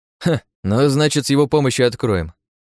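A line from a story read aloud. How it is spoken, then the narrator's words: Scout's snort. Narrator (Russian): хмыкнул разведчик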